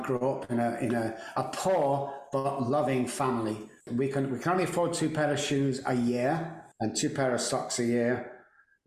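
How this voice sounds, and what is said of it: British accent. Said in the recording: “in the UK, where that beautiful accent comes from”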